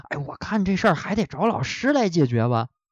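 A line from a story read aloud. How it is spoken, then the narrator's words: Quiet muttering. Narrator (Chinese): 小声嘀咕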